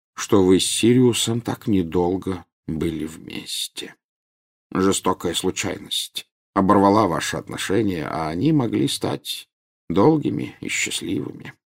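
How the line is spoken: Quiet. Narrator (Russian): тихо сказал Дамблдор

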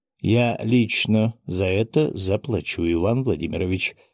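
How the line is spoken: Plain. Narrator (Russian): ответил Александр Александрович

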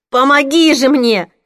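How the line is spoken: Desperate shouting for help. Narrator (Russian): кричала я так, будто рядом был кто-то, способный помочь

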